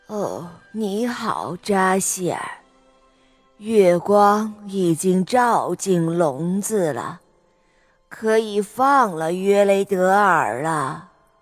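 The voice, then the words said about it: Low, deep witch voice. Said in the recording (Chinese): “用低沉的声音说道”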